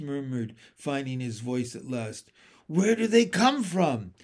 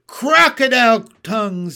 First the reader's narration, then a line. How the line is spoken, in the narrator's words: he cried